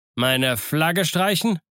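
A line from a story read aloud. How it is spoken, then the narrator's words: Captain calling out. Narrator (German): rief der Kapitän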